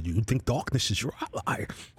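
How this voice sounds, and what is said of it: Bane impression. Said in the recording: “my Bane impression”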